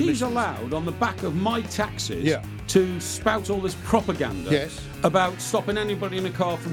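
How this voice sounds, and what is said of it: Usual voice. Nothing is said of it.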